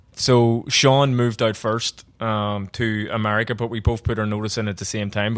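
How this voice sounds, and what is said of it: Thick accent. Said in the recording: “My accent is very thick.”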